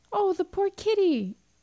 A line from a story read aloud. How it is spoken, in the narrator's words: cried Gloria, sincerely moved